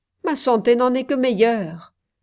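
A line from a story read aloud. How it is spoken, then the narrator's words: Quick, lively. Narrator (French): ajouta-t-il vivement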